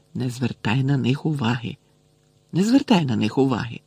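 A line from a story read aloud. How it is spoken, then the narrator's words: Barely audible muttering. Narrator (Ukrainian): весь час бурмотіла ледве чутно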